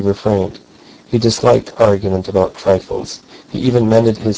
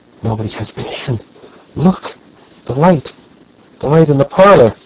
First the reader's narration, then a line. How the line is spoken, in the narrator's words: Verloc gasped out